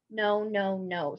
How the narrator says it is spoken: said Bellatrix

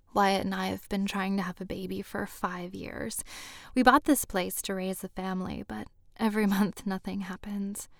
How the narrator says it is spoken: she said softly

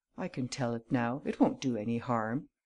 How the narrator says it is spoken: he murmured

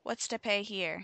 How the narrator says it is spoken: He cried

